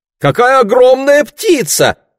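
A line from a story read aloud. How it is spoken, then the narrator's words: Female exclamation. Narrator (Russian): воскликнула Марго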